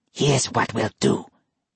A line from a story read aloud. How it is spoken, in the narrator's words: Yoshio whispered